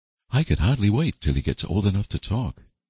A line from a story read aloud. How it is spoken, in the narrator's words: sighed Diana